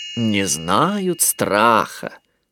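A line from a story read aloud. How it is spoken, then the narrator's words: Drawling. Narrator (Russian): протянула Малли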